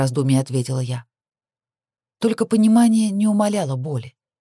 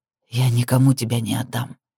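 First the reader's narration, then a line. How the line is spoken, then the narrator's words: Earnest whisper in ear. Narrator (Russian): убежденно зашептал мне на ухо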